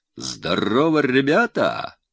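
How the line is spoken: Loud cheerful parade shout. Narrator (Russian): крикнул зычно и весело, как на параде

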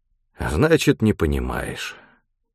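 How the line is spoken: Sighing. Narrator (Russian): вздохнул Антип

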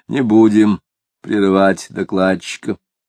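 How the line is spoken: Muffled bass. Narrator (Russian): Длинный человек сказал глухим басом

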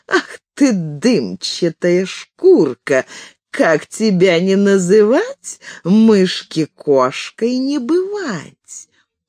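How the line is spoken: Laughing cat. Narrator (Russian): Засмеялась кошка-мурка

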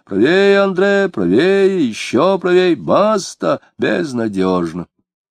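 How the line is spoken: Muffled unseen voice from river. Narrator (Russian): С реки кто-то невидимый глухо говорил ему

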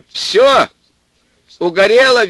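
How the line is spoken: Cheerful shout into phone. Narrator (Russian): весело закричал он в трубку

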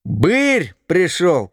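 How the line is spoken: Group shouting. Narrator (Russian): кричали

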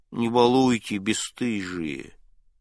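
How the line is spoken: Mumbling. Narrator (Russian): Пензенская промямлила

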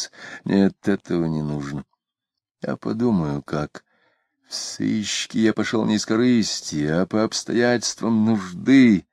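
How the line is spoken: Drunken mumbling. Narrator (Russian): забормотал Митрофанов, выпив водки

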